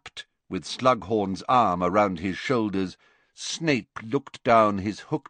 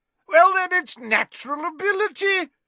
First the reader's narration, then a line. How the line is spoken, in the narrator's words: shouted Slughorn